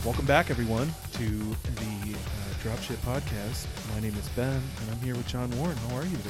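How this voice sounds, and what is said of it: Put-on sexy voice. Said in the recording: “You got your sexy voice on.”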